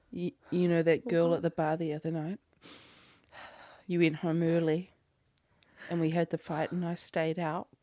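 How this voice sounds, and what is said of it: Put-on Australian accent. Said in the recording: “What's the word to key me into an Australian accent?”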